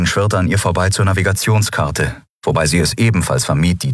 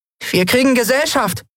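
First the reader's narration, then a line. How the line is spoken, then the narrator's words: Called out. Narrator (German): rief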